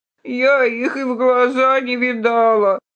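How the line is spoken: Old nag's moan. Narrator (Russian): простонала кляча

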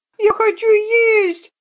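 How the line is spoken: Squeaky girl's cry. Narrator (Russian): запищала девчонка

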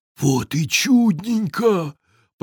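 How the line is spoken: Whispered. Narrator (Russian): прошептал он

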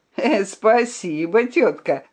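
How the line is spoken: Laughing. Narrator (Russian): засмеялся цыган

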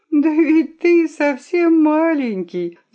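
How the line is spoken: Sobbing. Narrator (Russian): зарыдала Хитраска

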